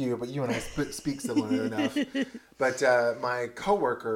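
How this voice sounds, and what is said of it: Usual voice. Nothing is said of it.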